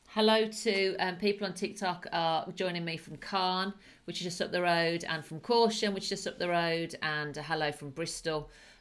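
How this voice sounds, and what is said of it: Northern / Midlands English accent. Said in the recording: “I do have a northern accent. Well, I'm Midlands originally”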